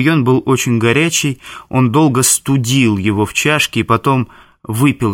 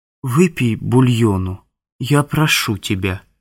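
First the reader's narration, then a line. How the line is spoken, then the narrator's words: Soft, gentle. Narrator (Russian): мягко сказала она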